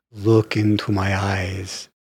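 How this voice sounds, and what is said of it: Dracula impression. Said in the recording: “his Dracula impersonation”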